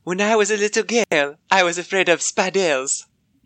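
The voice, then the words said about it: Put-on French accent. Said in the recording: “Oh, that's pretty good. He has to be French.”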